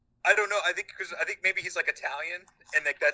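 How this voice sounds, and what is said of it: Usual voice. Nothing is said of it.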